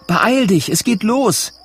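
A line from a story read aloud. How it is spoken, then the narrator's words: Farmer's wife calling. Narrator (German): ruft seine Frau, die Bäuerin Betty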